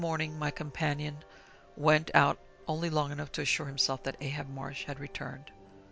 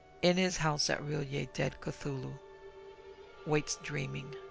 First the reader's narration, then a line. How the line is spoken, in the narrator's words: Phelan translated in his hushed voice